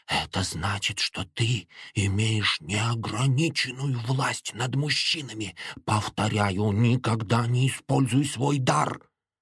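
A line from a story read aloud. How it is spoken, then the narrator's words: Quiet, tense voice. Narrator (Russian): говорил тихим, напряженным голосом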